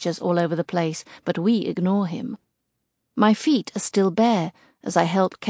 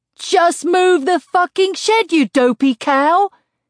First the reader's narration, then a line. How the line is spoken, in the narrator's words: He roars in my face